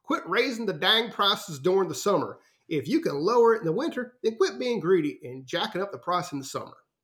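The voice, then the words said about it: Put-on Southern accent. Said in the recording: “I'm assuming it's going to be a Southern accent ... that's my best guess”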